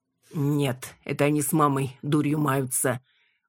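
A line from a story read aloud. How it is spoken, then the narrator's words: Grumbling. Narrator (Russian): буркнул Лёша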